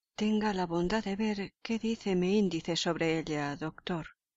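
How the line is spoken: Murmured. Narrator (Spanish): murmuró Holmes sin abrir los ojos

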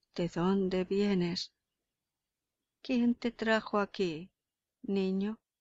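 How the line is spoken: Stammering. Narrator (Spanish): balbuceó Nicolás, pálido como la muerte

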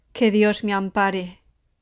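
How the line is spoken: Exclaimed after brief pause. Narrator (Spanish): exclamó después de una breve pausa

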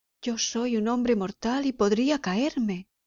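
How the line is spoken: Pleading. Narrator (Spanish): Scrooge suplicó

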